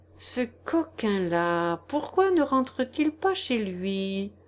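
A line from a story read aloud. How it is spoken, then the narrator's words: Muttered through teeth. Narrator (French): murmura-t-il entre ses dents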